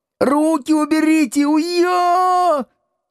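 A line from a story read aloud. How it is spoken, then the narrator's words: Pained yelling. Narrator (Russian): заорал Градусов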